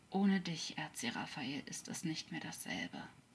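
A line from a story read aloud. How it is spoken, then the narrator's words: Quiet, continuing. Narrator (German): sprach er leise weiter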